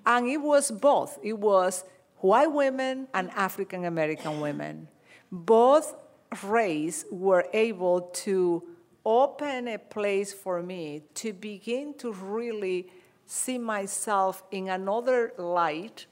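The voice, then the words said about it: Non-native English accent. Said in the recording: “I know you don't speak well English. You have an accent.”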